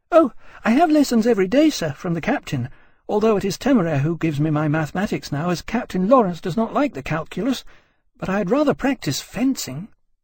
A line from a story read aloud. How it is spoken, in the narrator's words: Emily, perfectly innocent of malice, answered in her clear, girlish voice